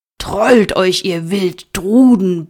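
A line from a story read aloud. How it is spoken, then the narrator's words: Shouting. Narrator (German): brüllte er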